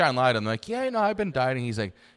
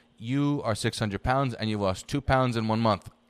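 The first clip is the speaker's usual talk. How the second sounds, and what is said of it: Old man's heavy Iranian accent. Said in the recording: “old Iranian guy ... old man with a crazy accent”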